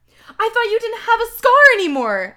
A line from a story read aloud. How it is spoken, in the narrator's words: I shouted